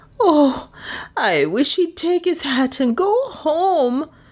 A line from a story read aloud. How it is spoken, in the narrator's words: groaned Lizzie, inattentive to all but her own fears